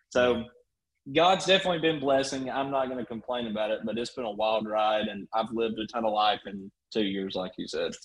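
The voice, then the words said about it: Thick regional accent. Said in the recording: “that accent is like generationally thick”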